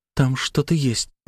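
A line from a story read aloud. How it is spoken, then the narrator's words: Whispered. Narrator (Russian): прошептал я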